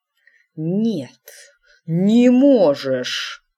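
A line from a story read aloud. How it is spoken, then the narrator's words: Hissing. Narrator (Russian): прошипел он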